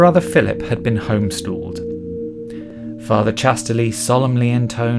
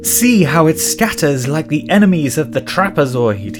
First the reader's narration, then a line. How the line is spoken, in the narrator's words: cried